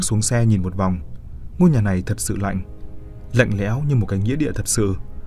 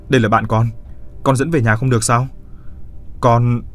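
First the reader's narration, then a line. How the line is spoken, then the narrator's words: Snapped irritably. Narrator (Vietnamese): Hắn mới gắt lên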